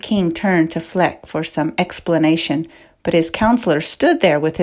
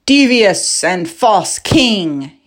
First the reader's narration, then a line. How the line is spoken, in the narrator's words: he spoke in a loud voice